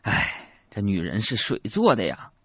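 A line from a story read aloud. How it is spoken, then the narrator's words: Long sigh. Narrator (Chinese): 长叹一口气说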